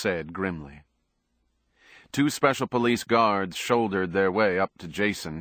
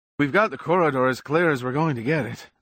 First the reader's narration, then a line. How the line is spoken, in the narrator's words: the fatter of the two cops wheezed